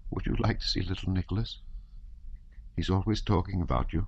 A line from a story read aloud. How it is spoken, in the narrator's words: Princess Mary suddenly said in a trembling voice